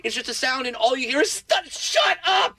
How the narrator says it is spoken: I yelled at my wife

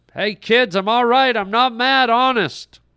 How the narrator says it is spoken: Brett tried once more to yell to them

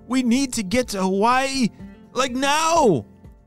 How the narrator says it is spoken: shouted Logan

